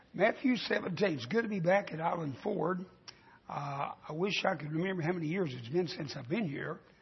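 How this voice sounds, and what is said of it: Raspy, scratchy voice. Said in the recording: “My voice is kind of raspy and scratchy”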